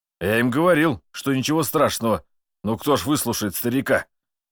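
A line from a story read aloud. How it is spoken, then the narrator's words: Wry grunt. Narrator (Russian): Граф хмыкнул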